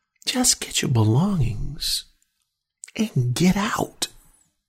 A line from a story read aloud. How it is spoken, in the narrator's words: Vincent penetrates her thoughts and says in a nice, calm, pacifying voice